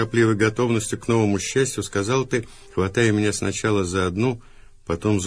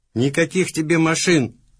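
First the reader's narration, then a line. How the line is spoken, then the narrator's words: Anguished, angry shout. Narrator (Russian): Страдальчески, даже злобно закричал в ответ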